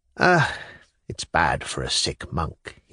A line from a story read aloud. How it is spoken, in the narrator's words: he sighed